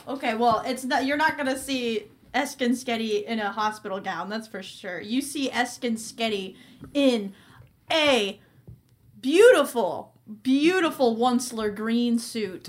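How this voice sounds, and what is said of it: Convincing impression of Eskin Skeddy. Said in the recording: “he sounds very different. ... Are you doing the voice? ... That's very convincing. ... That sounds exactly like ... him.”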